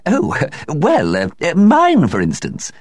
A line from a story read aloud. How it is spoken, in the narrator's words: said Mavis with a feeble laugh